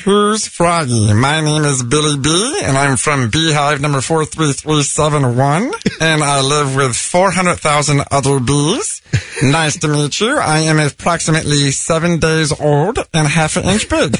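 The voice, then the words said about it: Bee character voice. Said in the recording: “let me hear your little B character voice again”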